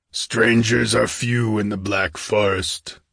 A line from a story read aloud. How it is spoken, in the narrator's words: grunted the host